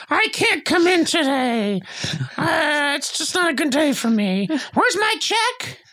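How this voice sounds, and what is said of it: Imitates another person's voice. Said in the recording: “That's my Sona impression.”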